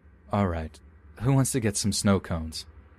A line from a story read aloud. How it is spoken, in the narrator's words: said as cheerfully as I could